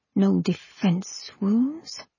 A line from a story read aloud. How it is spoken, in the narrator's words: Pent murmured